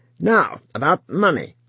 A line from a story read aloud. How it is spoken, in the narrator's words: said the woman sharply